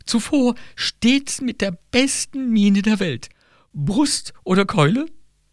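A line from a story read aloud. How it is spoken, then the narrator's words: Whimpering with heaving chest. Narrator (German): wimmerte also Crescentia wogenden Busens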